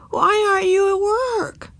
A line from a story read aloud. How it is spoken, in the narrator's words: croaked Ramona